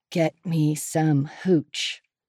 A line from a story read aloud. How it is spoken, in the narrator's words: he mutters from the side of his mouth